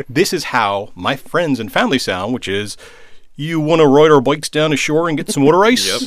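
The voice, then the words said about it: Philadelphia-area mid-Atlantic accent. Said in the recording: “the actual mid-Atlantic accent, I grew up outside of Philly, spitting distance from Baltimore ... That's the mid-Atlantic accent. ... That's very good.”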